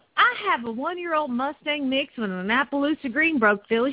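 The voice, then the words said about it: Put-on Southern American accent. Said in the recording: “They speak with a southern accent there, you know.”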